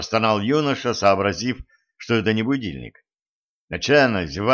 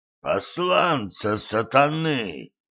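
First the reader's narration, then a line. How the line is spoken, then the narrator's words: Hoarse wheeze. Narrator (Russian): просипел незнакомец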